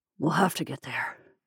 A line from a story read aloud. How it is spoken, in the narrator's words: he murmured